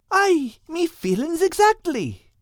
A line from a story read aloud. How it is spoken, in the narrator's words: replied Al excitedly